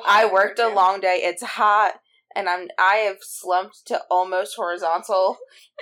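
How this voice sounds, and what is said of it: Raspy, sleepy voice. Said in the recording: “sorry for my voice... my voice is getting very much raspy sleepy... Raspy's a good sound”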